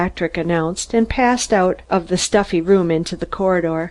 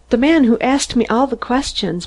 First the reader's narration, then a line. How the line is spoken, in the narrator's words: Mary sobbed